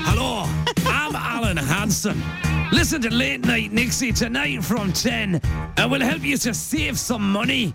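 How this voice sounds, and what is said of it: Weak put-on Scottish accent. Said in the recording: “my Scottish accent's no very good”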